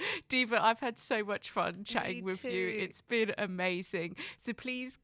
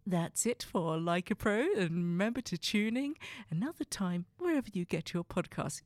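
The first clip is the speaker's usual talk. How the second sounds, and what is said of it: Formal professional presenter voice. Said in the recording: “do my professional voice ... I was all professional for all of 30 seconds”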